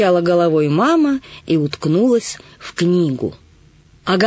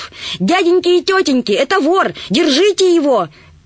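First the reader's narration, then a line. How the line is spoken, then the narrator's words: Loud shout. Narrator (Russian): громко закричала она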